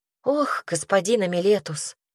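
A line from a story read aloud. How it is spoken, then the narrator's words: Sighing. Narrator (Russian): Ясмина вздохнула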